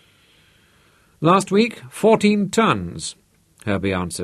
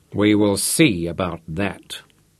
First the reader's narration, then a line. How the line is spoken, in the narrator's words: muttered